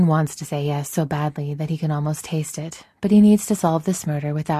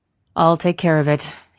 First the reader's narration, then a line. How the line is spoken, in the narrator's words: he says grimly